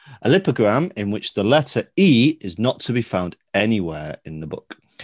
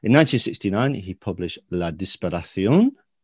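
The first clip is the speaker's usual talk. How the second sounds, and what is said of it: French words in a Spanish-sounding accent. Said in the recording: “I think you did a Spanish accent there.”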